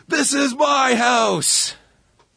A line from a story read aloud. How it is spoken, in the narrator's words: Blackman yells